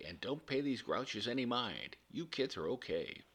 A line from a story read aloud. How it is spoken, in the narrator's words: she said cheerfully